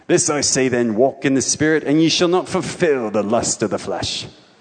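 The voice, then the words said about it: Put-on English accent. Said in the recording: “I read it with the English accent ... they read it with the English accent”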